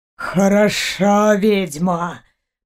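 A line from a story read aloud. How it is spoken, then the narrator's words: Hissing under breath. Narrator (Russian): прошипел он себе под нос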